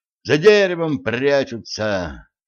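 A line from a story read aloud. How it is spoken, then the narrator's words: Sorrowful sigh. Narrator (Russian): горестно вздохнул стажер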